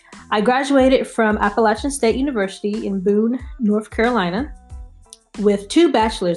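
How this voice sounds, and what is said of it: North Carolina accent. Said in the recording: “I am originally from North Carolina, so if you hear the accent, that is why.”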